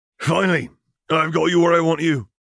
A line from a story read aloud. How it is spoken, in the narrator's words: he spat, flecks of saliva intermingling with his soaked robes